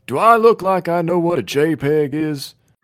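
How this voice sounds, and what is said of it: Hoarse Hank Hill cartoon voice. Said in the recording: “That's not my best Hank Hill ... My voice is hoarse.”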